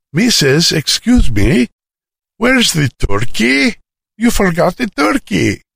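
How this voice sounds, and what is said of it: Greek accent. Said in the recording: “in her Greek accent”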